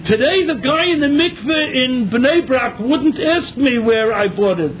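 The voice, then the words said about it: American English accent. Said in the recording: “my accent, and it hasn't changed much in 40 years ... But my accent, he knew that I was an Americaner”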